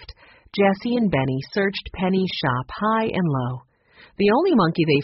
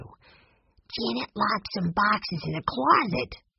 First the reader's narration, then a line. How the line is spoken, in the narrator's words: he whispered